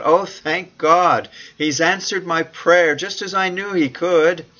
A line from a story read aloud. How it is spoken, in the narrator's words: Certain that her prayers to God for a meaningful education had been answered, Fanny cried out